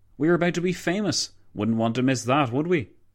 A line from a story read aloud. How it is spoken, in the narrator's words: McColville chuckled